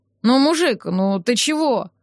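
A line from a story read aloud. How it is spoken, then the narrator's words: Mumbling. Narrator (Russian): забормотал он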